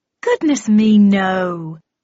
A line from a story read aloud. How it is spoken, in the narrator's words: exclaimed Marianne with a delightful giggle